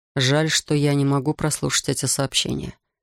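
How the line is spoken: Muttering. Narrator (Russian): пробормотал Дэймон

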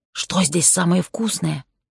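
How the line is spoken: Whisper. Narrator (Russian): прошептала

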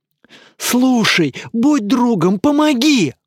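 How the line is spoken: Pleading. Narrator (Russian): взмолился Илья

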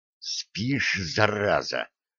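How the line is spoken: Angry hiss. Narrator (Russian): зло прошипел лейтенант госбезопасности

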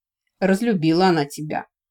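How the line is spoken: Smirking snort. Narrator (Russian): хмыкнул Мартифор

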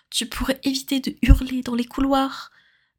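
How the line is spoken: Mocking exaggerated whisper. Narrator (French): dit Sirius de façon grotesque, tout en chuchotant

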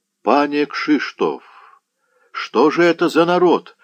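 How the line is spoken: Exclamation. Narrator (Russian): воскликнул воевода

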